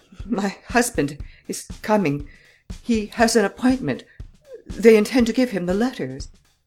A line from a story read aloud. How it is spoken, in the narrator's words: She was faint and nervous, and in a stammering voice she ejaculated